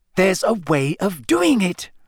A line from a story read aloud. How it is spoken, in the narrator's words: Hermione said crossly